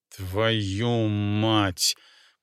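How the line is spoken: Gritted through teeth. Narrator (Russian): процедил генерал Анисимов

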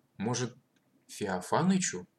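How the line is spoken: Timid prompt. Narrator (Russian): робко подсказал Матвей

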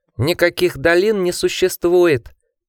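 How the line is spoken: Piercing voice. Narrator (Russian): пронзительным голосом ответил Ричард

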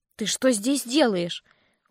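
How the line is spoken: Breathless, dazed. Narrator (Russian): выдохнула я, с трудом приходя в себя

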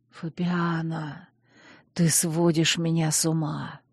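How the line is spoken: Hoarse whisper between kisses. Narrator (Russian): шептал он, смешивая поцелуи с хриплым шепотом

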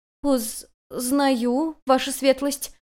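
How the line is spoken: Hesitant answer. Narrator (Russian): ответила та, чуть запинаясь

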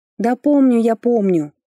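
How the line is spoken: Angry exhale. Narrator (Russian): зло выдохнула

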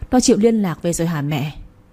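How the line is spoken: Sighing. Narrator (Vietnamese): Tôi thở dài bảo

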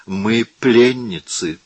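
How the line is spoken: Sigh while struggling. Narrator (Russian): вздохнула Виола, сопротивляясь

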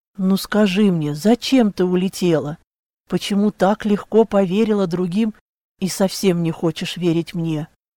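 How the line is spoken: Hissed. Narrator (Russian): прошипела

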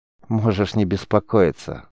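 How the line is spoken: Sad smiling voice. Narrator (Russian): грустно улыбнулся Риз

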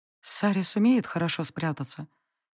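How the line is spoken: Quiet question. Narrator (Russian): тихо спросила я у него

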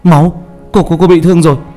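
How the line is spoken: Crying out. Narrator (Vietnamese): Hào kêu lên

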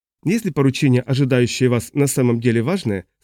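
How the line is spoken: Plain. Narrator (Russian): сказал полковник

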